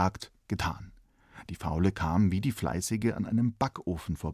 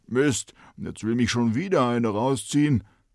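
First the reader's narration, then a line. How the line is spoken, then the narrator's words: Talking bread calling out. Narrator (German): Darin lag ein Brot und rief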